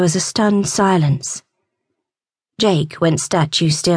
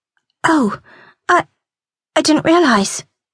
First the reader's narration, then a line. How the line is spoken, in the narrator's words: she stammered